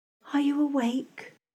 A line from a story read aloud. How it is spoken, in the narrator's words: I whispered softly